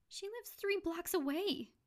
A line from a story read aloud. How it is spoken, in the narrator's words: Josie said excitedly